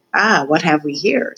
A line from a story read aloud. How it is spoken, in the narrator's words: said Roscuro